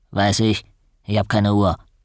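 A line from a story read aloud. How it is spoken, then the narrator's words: Grunting. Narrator (German): Er grunzte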